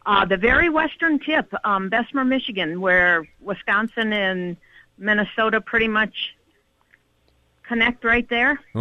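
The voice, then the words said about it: Upper Peninsula Michigan accent. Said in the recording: “It's a great accent, too.”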